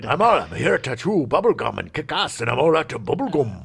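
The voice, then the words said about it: Mixed American-Scottish accent impression. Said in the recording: “like a combination of American and a bit of Canada and a little bit of a Scottish accent ... That's close. A little too much Scottish, but, like, it's no, close. It's that was bad. Close.”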